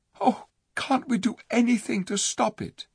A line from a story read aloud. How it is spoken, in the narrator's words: said Jill in a shaken voice